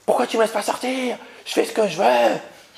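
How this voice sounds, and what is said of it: Shouting, angry teenager's voice. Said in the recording (French): “Mais pourquoi tu cries?”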